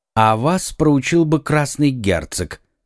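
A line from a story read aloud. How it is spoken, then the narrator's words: Calm remark. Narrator (Russian): спокойно заметил Арамис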